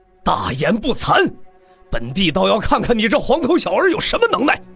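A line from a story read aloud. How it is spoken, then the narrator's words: Angry roar. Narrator (Chinese): 一道怒喝便从白家的阵营所在传出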